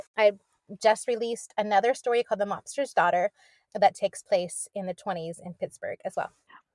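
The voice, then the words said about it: Eastern US Pennsylvania accent. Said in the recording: “I detected some kind of an Eastern accent ... you sound so Pennsylvania”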